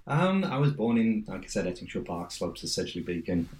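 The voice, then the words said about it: Local Ettingshaw Park accent. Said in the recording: “Where's the New York accent? ... I try my best to keep my Ettingshaw Park accent.”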